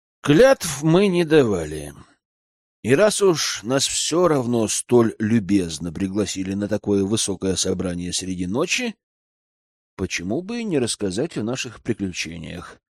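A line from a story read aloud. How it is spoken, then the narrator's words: Thoughtful speech. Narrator (Russian): задумчиво проговорил Аркан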